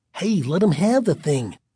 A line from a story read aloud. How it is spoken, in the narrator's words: Michael whispered in Greg's ear